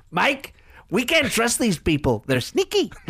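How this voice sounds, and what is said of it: Daft, squeaky imitated politician voice. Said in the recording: “a bit like Donald Trump ... I try and make it make funny noises and squeaks ... So I'll try and make him squeak ... just like make his voice really daft”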